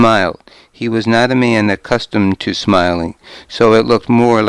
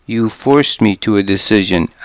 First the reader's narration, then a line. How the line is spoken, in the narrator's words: I said